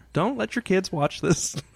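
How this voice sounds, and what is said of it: Marge Simpson impression. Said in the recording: “my Marge impression”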